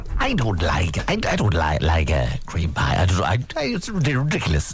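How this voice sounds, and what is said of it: Imitates another person's voice. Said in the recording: “Is that your impression of Michael O'Leary? ... It's actually quite good.”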